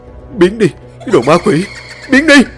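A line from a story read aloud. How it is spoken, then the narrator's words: Terrified screaming. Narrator (Vietnamese): Tiếng thằng Tú nó gào thét lên trong sợ hãi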